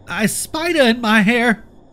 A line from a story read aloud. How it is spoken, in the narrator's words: at the top of my young, shrill lungs